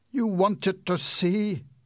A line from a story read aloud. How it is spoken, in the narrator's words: he cried